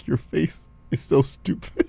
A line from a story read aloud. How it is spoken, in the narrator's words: starts laughing, and she's like